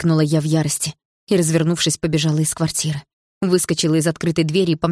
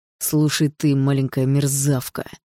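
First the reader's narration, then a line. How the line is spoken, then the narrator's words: Hissing. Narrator (Russian): прошипел он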